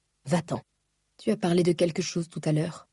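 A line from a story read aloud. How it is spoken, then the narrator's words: Whispering. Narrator (French): chuchota-t-elle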